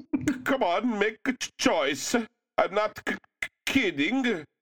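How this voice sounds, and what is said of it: Put-on Swedish accent. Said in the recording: “a decidedly Swedish accent”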